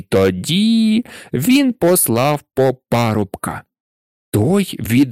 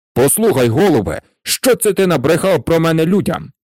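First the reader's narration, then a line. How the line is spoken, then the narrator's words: King's angry outburst. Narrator (Ukrainian): Сердито накинувся на нього цар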